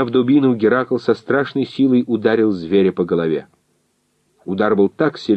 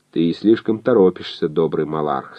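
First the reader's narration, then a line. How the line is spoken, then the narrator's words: Calm. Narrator (Russian): сказал он спокойно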